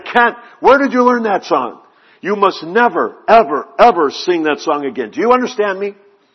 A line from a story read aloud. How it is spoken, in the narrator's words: literally shrieked and said